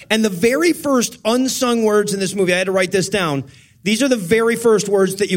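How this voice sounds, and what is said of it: Usual voice. Nothing is said of it.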